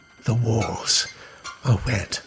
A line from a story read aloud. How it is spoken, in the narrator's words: whispered